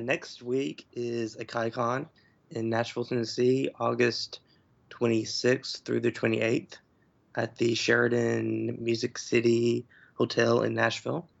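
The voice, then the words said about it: Slightly scratchy, hoarse voice. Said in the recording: “My voice is a little scratchy ... His vocal cords.”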